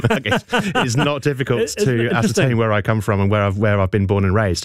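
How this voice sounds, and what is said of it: English accent, slight New Zealand tinge. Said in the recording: “I cannot shake my English accent ... my friends in England would say that I've kind of picked up a bit of a Kiwi accent”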